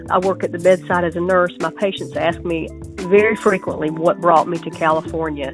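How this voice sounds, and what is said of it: Southern US accent. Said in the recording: “you can tell by my accent, I'm not from here ... I had to leave the South”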